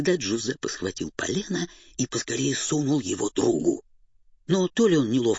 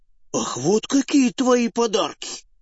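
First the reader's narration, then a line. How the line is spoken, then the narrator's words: Offended shout. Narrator (Russian): обиженно крикнул Карла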